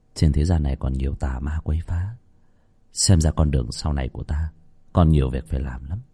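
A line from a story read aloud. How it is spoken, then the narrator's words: Inward sigh. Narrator (Vietnamese): Trong lòng Khánh thở dài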